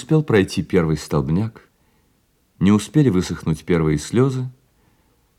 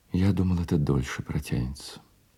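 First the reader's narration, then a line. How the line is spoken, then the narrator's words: Calm relieved whisper. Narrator (Russian): К Дюруа вернулось его обычное спокойствие, и, облегченно вздохнув, он прошептал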